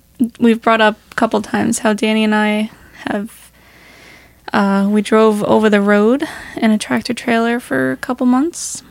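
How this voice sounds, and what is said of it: Hoarse voice. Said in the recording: “sorry if my voice is, like, hoarse.”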